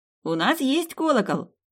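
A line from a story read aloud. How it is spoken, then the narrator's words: Joyful boy's shout. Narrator (Russian): радостно выкрикнул паренек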